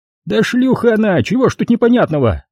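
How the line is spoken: Shrill outburst. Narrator (Russian): Не выдержав, взвизгнул Захарыч

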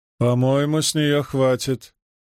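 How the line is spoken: Booming drone. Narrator (Russian): прогудела медсестра

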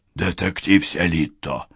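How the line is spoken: Hoarse whispered call. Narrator (Russian): хриплым шепотом окликнул его Вейер

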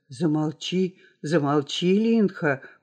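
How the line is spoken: Whispered. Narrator (Russian): прошептал он

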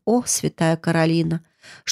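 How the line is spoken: Sad sigh, mumbling. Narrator (Russian): тетушка Майра грустно вздохнула и пробормотала

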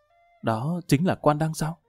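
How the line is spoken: Soft young lady's voice. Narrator (Vietnamese): Đại tiểu thư khẽ giọng nói

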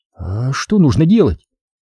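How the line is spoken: Hesitant, uncertain. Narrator (Russian): как-то неуверенно замялась Лариса

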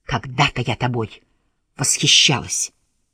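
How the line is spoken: Hiss. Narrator (Russian): прошипеть

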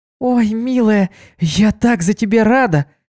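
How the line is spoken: Excited shout. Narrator (Russian): закричала она

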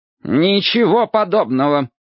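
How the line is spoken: Angry retort. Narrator (Russian): злобно сморщившись, возразил Вышемирский

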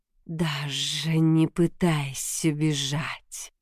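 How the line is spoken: Quiet calm hissing woman. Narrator (Russian): с шипением произнес женский голос, тихий и спокойный

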